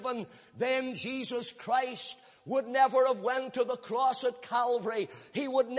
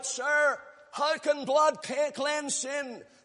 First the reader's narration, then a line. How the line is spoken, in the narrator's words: He shouted out